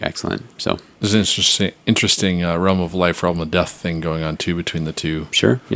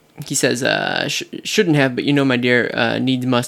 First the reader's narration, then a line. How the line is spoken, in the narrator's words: he croaked